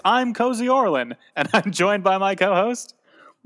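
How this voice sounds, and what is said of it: Weird put-on voice. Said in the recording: “Doing a weird voice ... also doing a weird voice ... nicely done, with a weird voice.”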